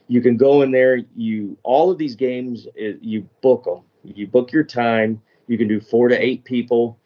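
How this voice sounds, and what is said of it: Texas accent. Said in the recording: “the Texas accent”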